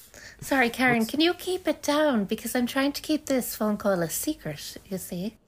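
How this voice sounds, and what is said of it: Irish lilt accent. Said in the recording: “You have an Irish lilt. You have an Irish lilt to you.”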